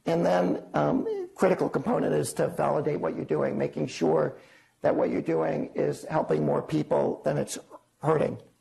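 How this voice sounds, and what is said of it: Hoarse voice. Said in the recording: “I apologize for my hoarse voice”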